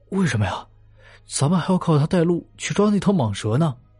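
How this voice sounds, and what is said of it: Quiet, hushed question. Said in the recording (Chinese): “小声的问道”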